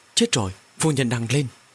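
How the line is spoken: Frightened maid, trembling. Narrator (Vietnamese): Nha hoàn Tế Văn vội vàng, run run nói

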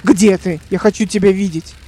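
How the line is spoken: Growled. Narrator (Russian): прорычал

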